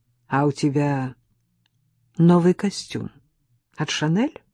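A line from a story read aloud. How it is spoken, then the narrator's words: Calm. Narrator (Russian): спокойно продолжал Велихов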